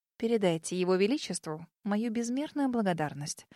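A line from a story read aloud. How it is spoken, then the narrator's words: Stunned mumble. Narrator (Russian): ошарашенно пробормотала я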